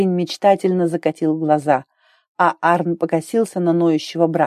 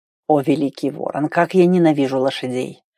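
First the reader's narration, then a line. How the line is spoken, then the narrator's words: Grumbling. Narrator (Russian): бурчал Хьорд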